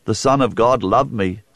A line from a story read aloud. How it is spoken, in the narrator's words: said Paul